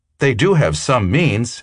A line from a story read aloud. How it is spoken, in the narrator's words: Emile said eagerly